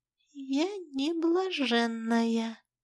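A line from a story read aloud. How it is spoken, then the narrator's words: Quiet. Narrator (Russian): тихо сказала я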